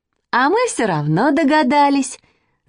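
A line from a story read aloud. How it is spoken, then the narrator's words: Laughing. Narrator (Russian): засмеялась Маня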